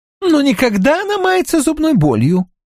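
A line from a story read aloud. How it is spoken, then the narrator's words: Cheerful reply. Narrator (Russian): весело отвечает Рочфорд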